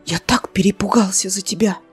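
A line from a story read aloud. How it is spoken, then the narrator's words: Whispered in ear. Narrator (Russian): прошептал на ухо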